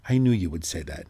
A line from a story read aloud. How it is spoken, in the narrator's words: he said